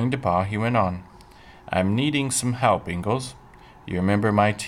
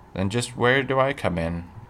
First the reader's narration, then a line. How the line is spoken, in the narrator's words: Pa asked